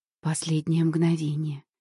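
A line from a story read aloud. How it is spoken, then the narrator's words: Breathed out. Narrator (Russian): выдохнула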